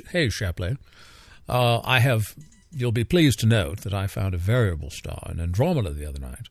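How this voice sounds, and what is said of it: Edwin Hubble's fake British accent. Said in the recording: “I can just hear his fake British accent”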